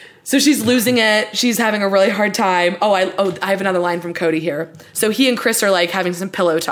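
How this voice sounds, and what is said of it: Usual voice. Nothing is said of it.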